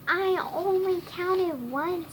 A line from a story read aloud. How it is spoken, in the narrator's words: Snitch whined